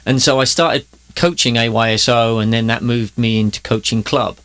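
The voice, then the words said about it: English accent. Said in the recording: “if you've got an English accent”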